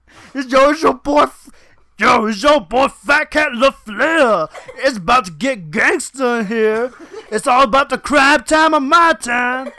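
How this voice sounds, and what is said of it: Comedic character impression voice. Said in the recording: “your fat Cat LaFleur impression”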